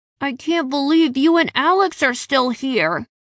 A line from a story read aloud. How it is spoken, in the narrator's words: Derek told me, his shout muffled by my tunic